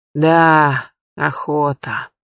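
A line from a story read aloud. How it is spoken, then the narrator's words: Sighing, head huntsman. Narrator (Russian): вздохнул старший егерь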